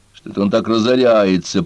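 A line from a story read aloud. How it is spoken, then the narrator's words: Fox grumbling. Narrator (Russian): пробурчал лис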